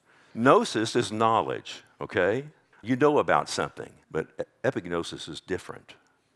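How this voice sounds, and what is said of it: Texas accent. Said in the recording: “that's with a Texas accent.”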